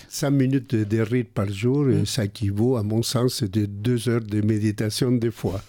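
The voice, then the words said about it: Speaks with a different, noticeable accent. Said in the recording (French): “Il faut rigoler de mon accent ... c'est un accent différent”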